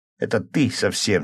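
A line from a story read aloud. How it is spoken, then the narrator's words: Angry reply. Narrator (Russian): сердито ответил я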